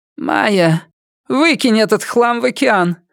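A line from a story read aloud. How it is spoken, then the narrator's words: Sudden hoarse voice. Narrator (Russian): вдруг охрипшим голосом произнесла Эмилия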